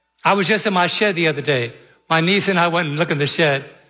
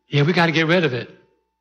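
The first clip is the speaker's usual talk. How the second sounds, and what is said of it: Imitates another person's voice. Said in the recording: “Here's her accent.”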